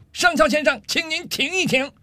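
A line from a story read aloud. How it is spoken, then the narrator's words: Furious shout. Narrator (Chinese): 上尉气得涨红了脸，大声喊道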